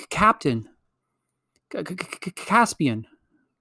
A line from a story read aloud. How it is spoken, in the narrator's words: gasped Lucy, as soon as she had breath enough